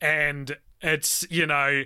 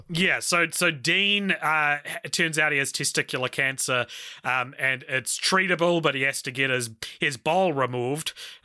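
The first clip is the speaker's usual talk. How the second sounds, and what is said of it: Attempted Canadian accent. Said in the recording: “That was my first attempt at a Canadian accent for this episode.”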